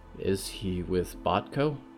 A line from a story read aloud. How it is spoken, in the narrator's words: Riot whispered